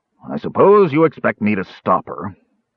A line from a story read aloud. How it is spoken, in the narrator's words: he grumbled